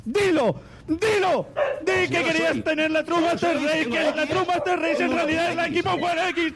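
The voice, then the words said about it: Shouting loudly. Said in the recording (Spanish): “No grites tanto”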